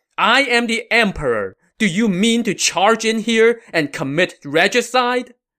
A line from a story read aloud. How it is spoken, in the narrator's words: Cao Mao shouted